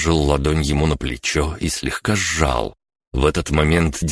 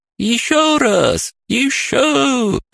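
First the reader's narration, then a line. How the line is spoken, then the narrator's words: Joyful squeal. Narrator (Russian): радостно визжала она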